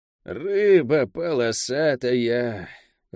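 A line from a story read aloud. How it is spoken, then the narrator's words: Disappointed, through clenched teeth. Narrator (Russian): разочарованно процедила Лавиане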